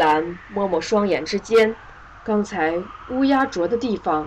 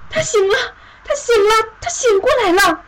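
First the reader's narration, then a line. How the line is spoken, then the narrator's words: Excited shouting woman. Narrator (Chinese): 那个黑发女人 高喊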